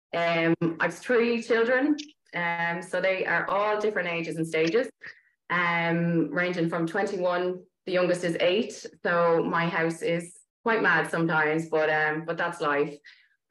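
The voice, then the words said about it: Dublin Irish accent. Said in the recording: “you've still got a bit of that Dublin accent”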